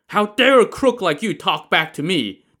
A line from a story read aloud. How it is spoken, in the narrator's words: the man roared